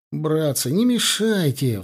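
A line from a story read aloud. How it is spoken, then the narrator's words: Pleading. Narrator (Russian): взмолился вспотевший Аксенов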